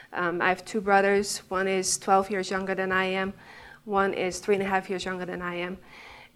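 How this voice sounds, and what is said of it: Dutch accent. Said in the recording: “So I'm from the Netherlands. I mean, you can tell my accent”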